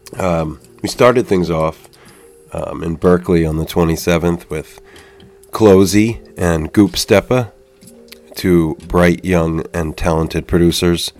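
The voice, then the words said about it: Slightly congested, sniffly voice. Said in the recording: “I have a bit of the sniffles. If you hear it in my voice, please excuse.”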